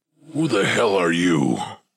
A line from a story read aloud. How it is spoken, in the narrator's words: it roared